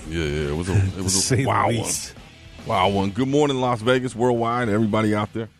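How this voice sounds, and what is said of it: Raspy, hoarse voice. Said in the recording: “check out my voice, man. Very raspy.”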